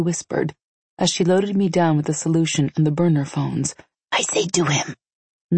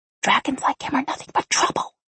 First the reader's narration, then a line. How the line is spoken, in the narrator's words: I whispered back